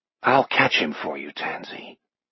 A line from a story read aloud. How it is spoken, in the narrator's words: In her ear, Jack whispers